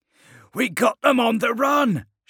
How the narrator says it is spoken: shouted Yontan, one of Governisk's men

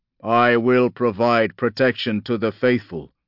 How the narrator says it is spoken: rumbled

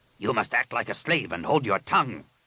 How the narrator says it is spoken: Rapung snapped

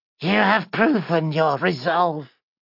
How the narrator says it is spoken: rasped the final heart wraith

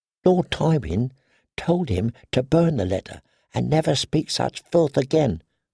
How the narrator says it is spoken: the girl whispered

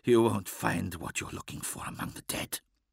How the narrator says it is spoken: Wirtgorn chuckled

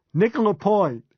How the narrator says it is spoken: Hugh said, laughing like a loon

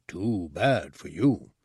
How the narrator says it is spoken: Ortug grunted again

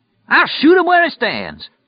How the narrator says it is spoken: the old guy yelled

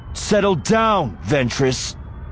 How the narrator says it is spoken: Anakin snapped

